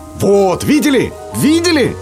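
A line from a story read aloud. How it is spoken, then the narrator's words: Old man shouting. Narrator (Russian): закричал дед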